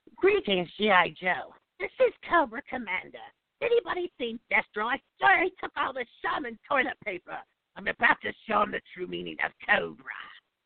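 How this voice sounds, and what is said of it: Cobra Commander character voice impression. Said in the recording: “my try tonight at Cobra Commander ... That was great. Accent and everything. You had all the little nuances in there.”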